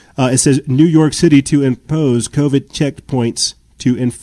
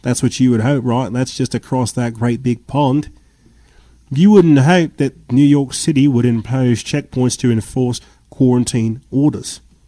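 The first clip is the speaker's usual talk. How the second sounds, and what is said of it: Put-on accent. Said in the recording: “Sorry, I'll stop the accent.”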